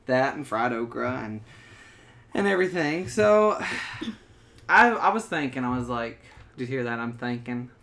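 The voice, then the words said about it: Southern American accent. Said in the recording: “The southern accent coming out. ... it comes out even worse ... it's thick”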